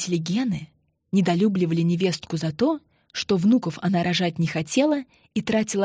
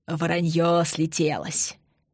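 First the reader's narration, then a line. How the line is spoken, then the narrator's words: Breathless wheeze. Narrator (Russian): просипел задыхающийся Юрий Яковлевич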